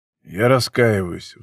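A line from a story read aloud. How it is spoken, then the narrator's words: Sighing. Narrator (Russian): вздохнул Райт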